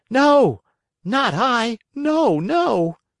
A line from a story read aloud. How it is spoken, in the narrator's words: cried Pinocchio, sobbing bitterly